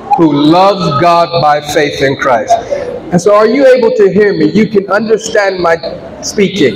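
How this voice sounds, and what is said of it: Black American California accent. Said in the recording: “I'm from California, and as a black American, is our accent is very different than you hear on CNN. Is we talk like we have our own culture.”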